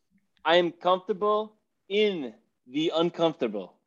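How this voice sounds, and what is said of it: Attempted Russian accent. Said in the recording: “I don't know what kind of accent that was, by the way. ... We knew what you were going for. We knew you were doing Russian.”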